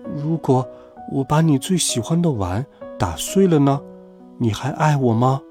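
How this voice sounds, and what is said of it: Quiet, small voice. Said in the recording (Chinese): “小声说”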